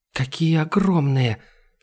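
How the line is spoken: Whisper. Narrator (Russian): шепотом произнесла Айлани

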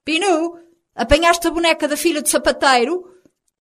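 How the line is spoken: Calling out to another room. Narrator (Portuguese): Dona Aquila gritou para o interior do apartamento

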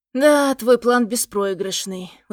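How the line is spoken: Sad smirk. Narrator (Russian): усмехаюсь я грустно

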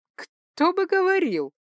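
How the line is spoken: Nervous laugh. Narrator (Russian): нервно рассмеялась я

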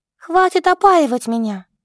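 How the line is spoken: Helpless exclamation. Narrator (Russian): воскликнула девушка, чувствуя бессилие во всей этой ситуации

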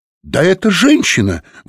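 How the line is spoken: Exclamation. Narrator (Russian): воскликнула Софи

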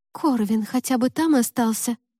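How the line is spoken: Frightened whisper. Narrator (Russian): испуганно прошептала Лика

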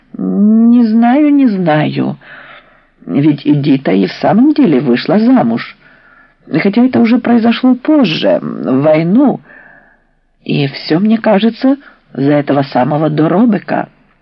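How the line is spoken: Uncertain. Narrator (Russian): Тетя Ядя неуверенно произнесла

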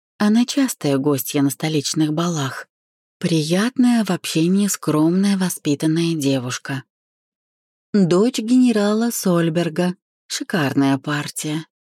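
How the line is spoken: Sighed. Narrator (Russian): вздохнула подруга

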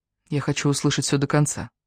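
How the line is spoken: Barely audible. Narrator (Russian): еле слышно произнесла я

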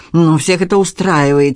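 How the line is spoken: Angry. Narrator (Russian): сердито продолжала Надин

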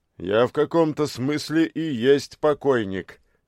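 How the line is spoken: Merry laughter. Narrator (Russian): весело рассмеялся Анастас Прокопович

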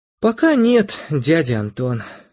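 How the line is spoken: Sighing girl. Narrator (Russian): вздохнула девушка

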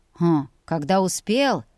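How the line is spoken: Dragon's wry snort. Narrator (Russian): хмыкнул ледяной дракон

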